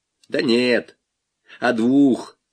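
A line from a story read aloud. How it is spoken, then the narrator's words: Plain. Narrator (Russian): сказал Малянов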